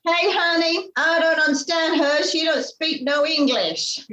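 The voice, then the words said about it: Attempted Texan American accent. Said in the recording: “you said you were going to do an American accent ... Texas ... I still can't do an American accent.”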